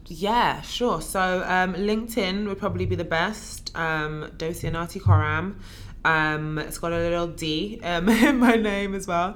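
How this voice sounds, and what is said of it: Raspy voice. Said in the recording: “I apologize for like my raspy voice”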